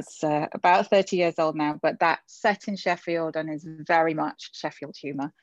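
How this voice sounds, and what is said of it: English Yorkshire accent. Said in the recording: “everyone can probably tell by my accent that I'm from England... It's Sheffield, which is in Yorkshire”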